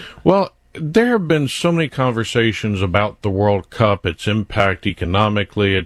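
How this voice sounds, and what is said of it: Usual voice. Nothing is said of it.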